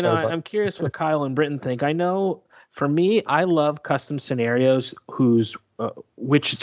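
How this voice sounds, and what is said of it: Usual voice. Nothing is said of it.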